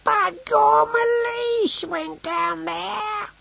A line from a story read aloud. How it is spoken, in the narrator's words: he wailed